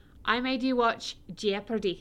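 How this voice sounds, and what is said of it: Mediocre put-on Scottish accent. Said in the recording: “I said it in the Scottish accent. Um, not because I have a good Scottish accent”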